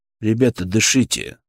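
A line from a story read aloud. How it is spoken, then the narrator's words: Calm, even voice. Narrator (Russian): сказал я спокойно, не повышая голоса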